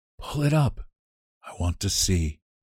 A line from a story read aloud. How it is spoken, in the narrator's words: she ordered in a whisper